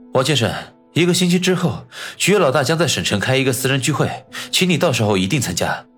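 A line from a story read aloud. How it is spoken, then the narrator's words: Solemn, serious. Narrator (Chinese): 焦秘书收起脸上的笑容，肃然的说道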